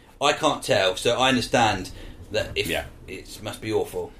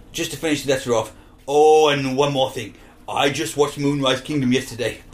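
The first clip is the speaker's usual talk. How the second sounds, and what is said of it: Bad put-on Welsh accent. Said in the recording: “I'm doing it in Welsh now. I'm doing it in a bad Welsh accent.”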